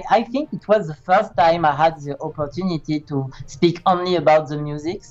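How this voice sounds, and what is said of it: Strong non-native English accent. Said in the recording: “my horrible accent and my English uh, was not very good today”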